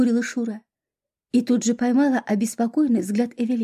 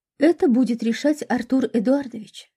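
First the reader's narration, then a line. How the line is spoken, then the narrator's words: Calm. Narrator (Russian): спокойно проговорил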